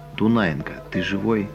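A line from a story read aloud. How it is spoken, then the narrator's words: Quiet question. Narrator (Russian): Григорий тихо спрашивает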